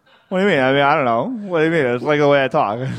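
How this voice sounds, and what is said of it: Odd accent with drawn-out vowels. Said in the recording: “Why do you sound like this?... why are you adding so many vowels to your words?”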